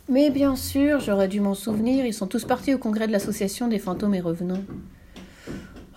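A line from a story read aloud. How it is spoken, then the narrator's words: Big sigh of relief. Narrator (French): poussa un grand soupir de soulagement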